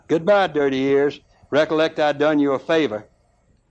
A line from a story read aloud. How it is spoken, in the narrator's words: Goaty shouted